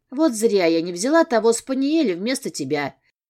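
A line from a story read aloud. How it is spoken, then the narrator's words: Displeased grumble. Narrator (Russian): Недовольно проворчала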